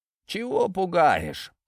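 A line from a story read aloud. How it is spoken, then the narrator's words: Grumbling. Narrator (Russian): проворчал император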